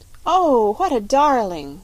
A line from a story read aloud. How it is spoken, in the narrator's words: cried Polly